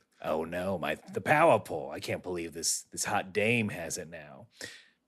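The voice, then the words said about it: Imitates another person's voice. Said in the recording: “that was my Corin impression.”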